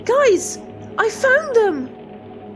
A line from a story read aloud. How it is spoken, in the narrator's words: Isabel shouted into the radio